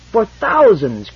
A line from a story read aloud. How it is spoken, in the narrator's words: cried Mies